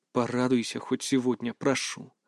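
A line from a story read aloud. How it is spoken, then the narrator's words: Said softly. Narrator (Russian): мягко произнес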